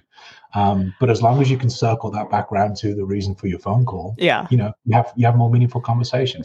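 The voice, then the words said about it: English accent. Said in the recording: “people do ask me where I'm from. And when I tell them I'm from England ... people do just speak to me to listen to my accent”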